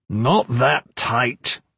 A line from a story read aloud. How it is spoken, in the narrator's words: he growled